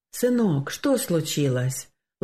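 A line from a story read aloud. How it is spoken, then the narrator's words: Father's gentle question. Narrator (Russian): ласково спросил отец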